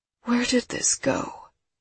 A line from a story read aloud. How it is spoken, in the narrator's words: She whispers